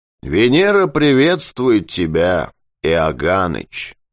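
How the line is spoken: Flat wooden voice. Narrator (Russian): деревянным голосом сообщил Юрковский

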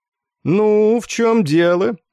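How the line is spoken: Lazy inquiry. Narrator (Russian): лениво поинтересовался подполковник Корн

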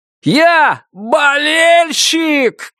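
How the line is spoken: Shouted back. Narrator (Russian): крикнул в ответ Уэсли

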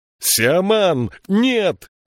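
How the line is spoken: Shouting. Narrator (Russian): закричал Джирики

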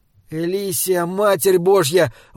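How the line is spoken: Tearful exclamation. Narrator (Russian): воскликнул Саймон, и слезы выступили у него на глазах

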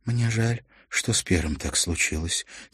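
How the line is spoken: Quiet. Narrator (Russian): тихо сказала Мартина

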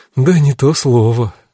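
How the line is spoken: Sighing. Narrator (Russian): вздохнула Кара

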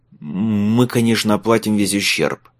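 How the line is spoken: Forced out. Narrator (Russian): выдавил из себя Майлз

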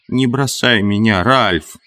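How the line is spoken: Moaning plea. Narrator (Russian): Хрюша стонал

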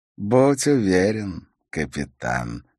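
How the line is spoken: Silky, ingratiating. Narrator (Russian): вкрадчиво произнес он

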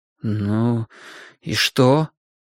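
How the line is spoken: Anxious impatient mutter. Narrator (Russian): пробормотал Грин, удивляясь навалившемуся тревожному нетерпению

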